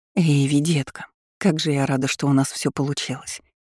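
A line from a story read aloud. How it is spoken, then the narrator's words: Happy breath turning anxious. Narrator (Russian): Выдохнула она счастливо, но ее голос тотчас же стал встревоженным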